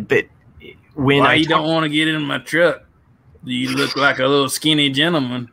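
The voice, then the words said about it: Thick Vermont accent. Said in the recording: “basically thick Vermont accent”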